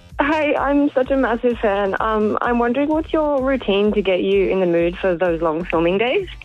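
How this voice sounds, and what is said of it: Shaky, nervous voice. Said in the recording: “if my voice sounds so shaky. I'm really nervous.”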